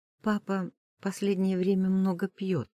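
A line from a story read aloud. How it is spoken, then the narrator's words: Quiet speech. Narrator (Russian): тихо говорит Мира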